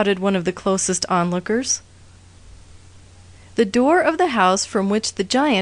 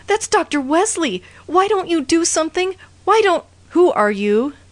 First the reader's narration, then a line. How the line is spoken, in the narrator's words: cried frantically